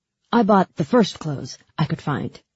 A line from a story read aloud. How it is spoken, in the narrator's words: he said